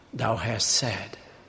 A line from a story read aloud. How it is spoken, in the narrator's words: he replied calmly